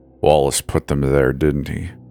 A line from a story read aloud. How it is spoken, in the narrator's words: grunted from the bed